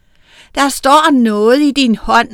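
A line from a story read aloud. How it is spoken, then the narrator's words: Shouted. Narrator (Danish): råbte Anders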